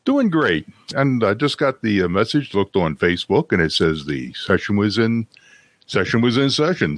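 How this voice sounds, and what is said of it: Rich radio-style voice. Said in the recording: “you had a great radio voice ... you have a voice of a great radio sound there”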